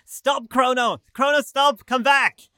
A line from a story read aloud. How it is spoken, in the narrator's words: a mob of people all shouting